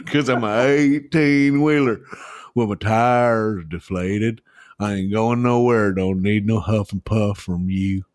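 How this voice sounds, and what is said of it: Slight put-on Southern twang. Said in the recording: “you you do that in a little uh, southern twang too”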